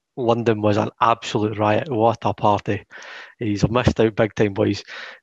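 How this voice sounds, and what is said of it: Thick Scottish accent. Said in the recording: “sounding quite different with your thick Scottish accent”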